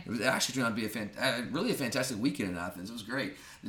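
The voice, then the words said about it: Nasal voice from allergies and cold. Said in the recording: “Not good for my allergies. I feel like I still sound bad. ... It doesn't sound bad. You're just nasally. ... I have the allergies, the temperature going back and forth, and ... I had a cold for a while ... I've never screamed as loud as I did in that game”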